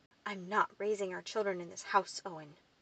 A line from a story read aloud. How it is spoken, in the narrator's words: hissed